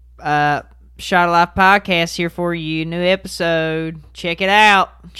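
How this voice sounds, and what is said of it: Put-on accent. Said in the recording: “I don't even know why I'm doing an accent”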